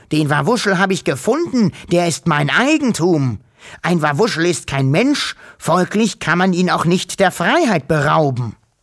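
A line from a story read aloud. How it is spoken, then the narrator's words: Shouted. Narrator (German): schrie er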